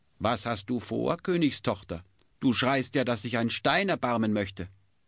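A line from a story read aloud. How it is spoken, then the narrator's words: Calling out. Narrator (German): rief ihr jemand zu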